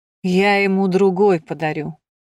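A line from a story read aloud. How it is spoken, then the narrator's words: Grumbling. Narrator (Russian): проворчал Реус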